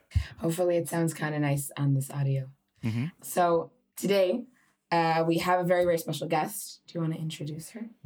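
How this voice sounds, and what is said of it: Hoarse, strained voice. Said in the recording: “Your voice is a little hoarse from all your birthright tour guiding... My voice is a little bit hoarse. It's been strained.”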